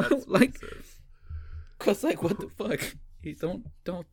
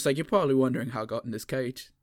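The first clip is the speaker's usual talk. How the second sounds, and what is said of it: Imitating Thor's accent. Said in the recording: “with his fucking accent. It's like, what the fuck, Thor?”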